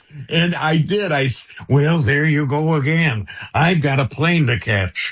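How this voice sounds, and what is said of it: Imitates another person's voice. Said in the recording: “your Reagan impression”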